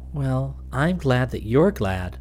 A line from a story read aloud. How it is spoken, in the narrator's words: said very quietly